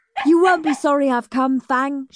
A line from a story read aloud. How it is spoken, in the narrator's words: she barked